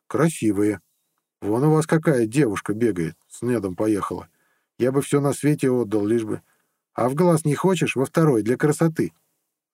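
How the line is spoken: Gloomy offer. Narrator (Russian): мрачно предложил Иса

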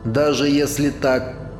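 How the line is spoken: Grumbled. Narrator (Russian): пробурчал

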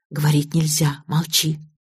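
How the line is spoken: Whisper in ears. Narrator (Russian): А мне в уши кто-то шептал

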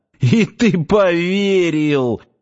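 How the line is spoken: Exclaiming after laughter. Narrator (Russian): отсмеявшись, воскликнул он

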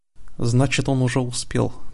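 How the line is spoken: Mutter. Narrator (Russian): пробормотала Лайла

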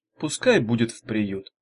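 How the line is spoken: Plain. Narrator (Russian): сказала Ирка

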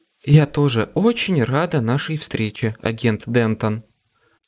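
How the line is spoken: Even voice. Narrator (Russian): ровным голосом ответила Кэррин

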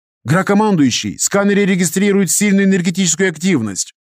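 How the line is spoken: Sudden shout. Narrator (Russian): вдруг закричал один из операторов

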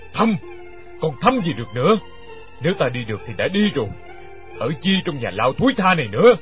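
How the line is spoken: Roaring. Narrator (Vietnamese): gầm lên

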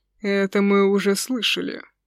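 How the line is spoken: Grumbling. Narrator (Russian): пробурчал архимаг

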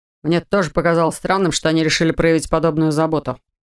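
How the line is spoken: Snorting. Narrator (Russian): добавил Олда, фыркнув

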